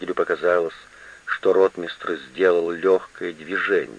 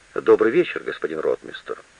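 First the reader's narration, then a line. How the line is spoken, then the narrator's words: Calm. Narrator (Russian): говорит спокойно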